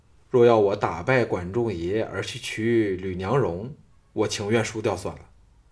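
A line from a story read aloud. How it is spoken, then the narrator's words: Flat, indifferent. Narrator (Chinese): 项少龙淡淡的说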